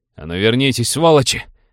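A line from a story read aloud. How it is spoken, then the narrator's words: Furious bark masking panic. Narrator (Russian): гаркнул командир, выдавливая панику яростью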